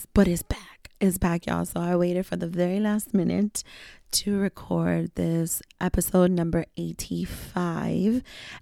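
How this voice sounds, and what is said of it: Raspy, hoarse voice. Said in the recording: “raspy voice here because your girl had just so much fun for her birthday that I lost my voice”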